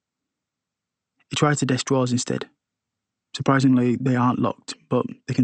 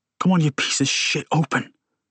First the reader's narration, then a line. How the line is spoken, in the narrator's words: he says through clenched teeth